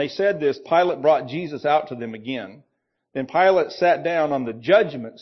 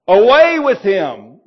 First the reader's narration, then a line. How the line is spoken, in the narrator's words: they yelled